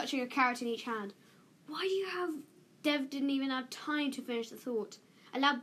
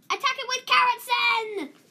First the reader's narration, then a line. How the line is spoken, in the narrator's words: He yelled